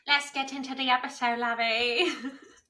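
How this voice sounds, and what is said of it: Put-on unidentified accent. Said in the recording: “I don't know what accent that was.”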